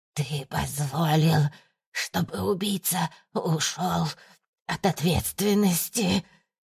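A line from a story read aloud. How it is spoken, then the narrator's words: Hoarse wheezing. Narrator (Russian): сипела Валентина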